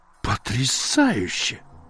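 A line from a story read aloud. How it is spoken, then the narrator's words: Admiring exclamation. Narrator (Russian): восхищенно воскликнул Пирен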